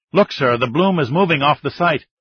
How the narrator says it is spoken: said urgently

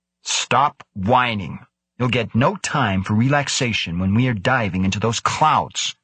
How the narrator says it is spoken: Krebs snarled at them

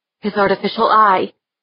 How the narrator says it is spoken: she blurted

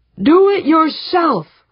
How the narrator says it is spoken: bellicose red-faced man thundered

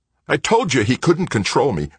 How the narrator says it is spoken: Greg snapped

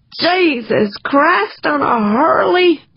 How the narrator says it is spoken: moaned

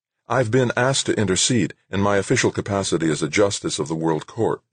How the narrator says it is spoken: Jill said

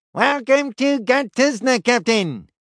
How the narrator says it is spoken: it said, in a tinny, cheery voice

